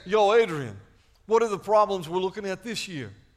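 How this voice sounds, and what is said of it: Rocky impression. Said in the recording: “your Rocky imitation”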